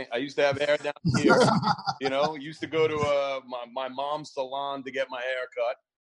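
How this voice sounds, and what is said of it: New York accent. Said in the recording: “I'm from New York, as you could tell by my accent.”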